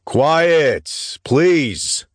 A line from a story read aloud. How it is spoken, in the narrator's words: bellowed